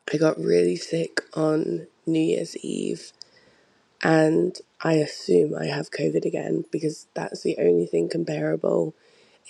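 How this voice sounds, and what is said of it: Very husky voice. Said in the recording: “my voice sounds incredibly husky right now”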